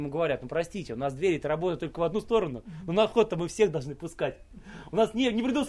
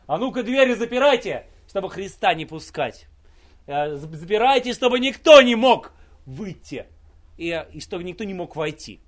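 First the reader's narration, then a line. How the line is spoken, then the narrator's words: Devil shouting. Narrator (Russian): И дьявол закричал к ангелам, охранникам ада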